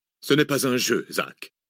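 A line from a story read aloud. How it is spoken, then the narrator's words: Curt retort. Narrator (French): répliqua sèchement le professeur Pareja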